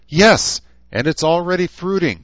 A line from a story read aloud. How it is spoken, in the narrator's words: shouted